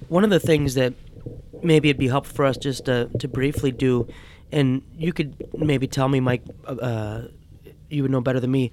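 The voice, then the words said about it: Strained, fading hoarse voice. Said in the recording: “losing my voice”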